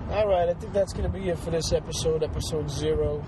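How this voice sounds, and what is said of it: Congested, rough sick-sounding voice. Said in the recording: “I'm a little under the weather, so my voice is a little fucked up. You have to excuse the, sh- the snorting and the annoying annoyingness that is my voice.”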